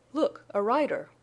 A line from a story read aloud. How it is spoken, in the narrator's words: exclaimed Jane, breaking the silence